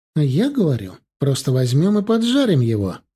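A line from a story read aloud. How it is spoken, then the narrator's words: Joyful declaration. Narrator (Russian): радостно заявила Лера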